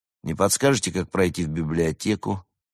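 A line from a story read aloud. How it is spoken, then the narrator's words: Gloomy question. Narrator (Russian): мрачно спросил он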